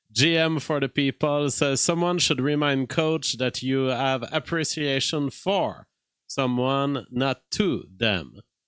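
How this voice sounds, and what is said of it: Quebecois accent in English. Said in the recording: “I have a very Quebecois outlook on life. And if you weren't hearing my accent”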